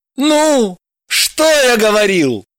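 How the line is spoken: Triumphant exclamation. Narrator (Russian): торжествуя воскликнул Евгений

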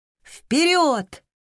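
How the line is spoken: Shouted in unison. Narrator (Russian): одновременно крикнули Роза и Эол

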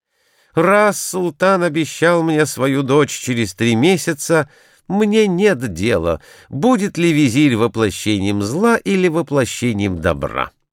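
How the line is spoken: Overjoyed exclamation. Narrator (Russian): он обрадовался великой радостью и воскликнул

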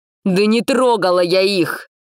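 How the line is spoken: Tearful shout, nearly hoarse. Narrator (Russian): закричала она, почти срываясь на хрип, а в бордовых глазах блеснули слезы

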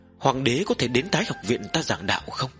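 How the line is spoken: Tentative, probing. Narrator (Vietnamese): Tần Mục thử dò xét nói

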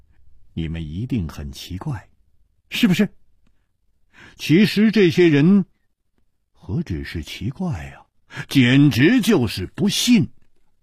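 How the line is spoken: Light smile. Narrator (Chinese): 楚留香笑了笑

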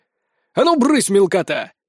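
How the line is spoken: Barked. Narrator (Russian): Рявкнул

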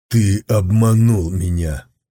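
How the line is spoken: Through clenched teeth. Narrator (Russian): Сквозь зубы процедил Сун Цзюй

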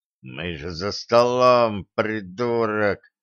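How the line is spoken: Quiet hiss. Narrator (Russian): тихо прошипел он

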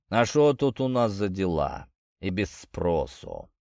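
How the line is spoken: Deep bass voice. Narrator (Russian): пробасил Бугор

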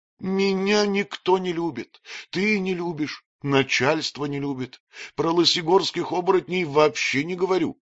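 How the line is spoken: Sobbing shepherd boy. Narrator (Russian): всхлипывал пастушок

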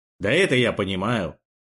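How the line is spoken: Grumbling. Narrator (Russian): проворчал друг

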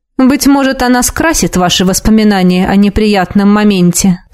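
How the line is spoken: Plain. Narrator (Russian): сказал

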